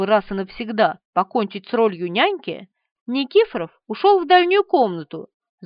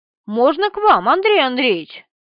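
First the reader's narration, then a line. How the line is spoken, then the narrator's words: Brisk, cheerful question. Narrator (Russian): спросил он, бодро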